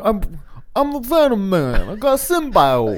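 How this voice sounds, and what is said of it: Put-on New York accent. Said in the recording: “Venom didn't have like a New York accent, did he? ... I feel like Tom Hardy did.”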